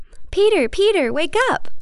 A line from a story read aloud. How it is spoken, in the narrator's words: an excited Mary exclaims